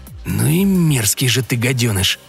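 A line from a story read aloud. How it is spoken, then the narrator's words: Hissing, recovering. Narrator (Russian): прошипел Дэрил, постепенно приходя в себя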